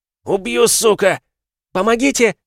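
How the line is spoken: Woman screaming, coughing. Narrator (Russian): закричала женщина, закашлявшись после очередного удара

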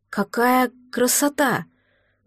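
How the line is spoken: Admiring breathy exclamation. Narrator (Russian): восхищенно выдохнула я

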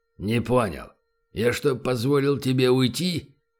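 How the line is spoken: Harsh bark. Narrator (Russian): рявкнул он

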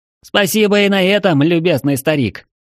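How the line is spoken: Irritated shout. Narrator (Russian): раздраженно прокричал в глухую стену Ярослав

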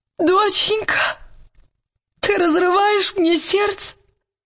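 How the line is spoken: Bitter furious sobbing. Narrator (Russian): Яростное горькое рыдание вырвалось из груди Лиры

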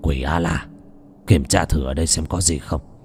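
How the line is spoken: Muttering. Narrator (Vietnamese): Đồ Lương lẩm bẩm

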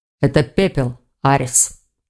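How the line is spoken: Calm. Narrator (Russian): спокойно произнес Хью

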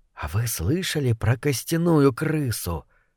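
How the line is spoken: Whisper. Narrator (Russian): прошептал кто-то

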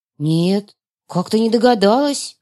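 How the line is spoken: Confused girl mumbling. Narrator (Russian): растерянно пробормотала девушка

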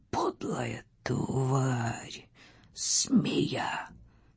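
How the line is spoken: Hoarse. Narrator (Russian): хрипло сказал он

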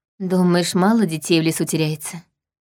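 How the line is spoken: Sighing. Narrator (Russian): вздохнула я

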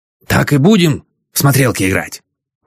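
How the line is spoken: Growling. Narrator (Russian): прорычала Аглаюшка

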